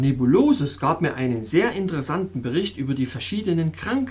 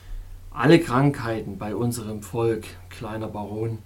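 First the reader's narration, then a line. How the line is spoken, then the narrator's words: Plain. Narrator (German): sagte er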